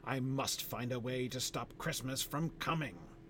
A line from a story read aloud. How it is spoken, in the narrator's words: he growled, nervously